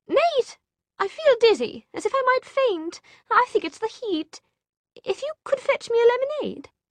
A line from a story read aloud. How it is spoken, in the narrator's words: In a state of absolute horror, Tessa sputtered